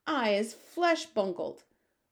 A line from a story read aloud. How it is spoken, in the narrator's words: roared the flesh lump eater